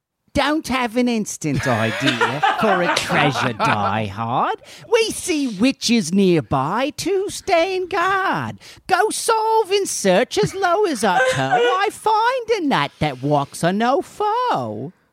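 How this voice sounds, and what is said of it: Attempted English accent, New Jersey tinged. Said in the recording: “an English accent ... Sort of like a New Jersey Oliver Twist”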